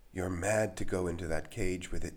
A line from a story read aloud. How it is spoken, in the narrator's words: gasped Lucan in a thin, reedy voice